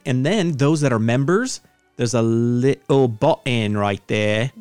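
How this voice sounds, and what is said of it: Put-on accent. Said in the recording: “Do not do that accent”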